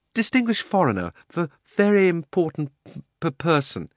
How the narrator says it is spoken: stammered

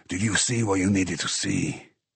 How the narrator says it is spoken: Dupin breathed slowly

